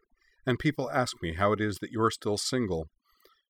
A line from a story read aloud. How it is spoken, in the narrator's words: she observed dryly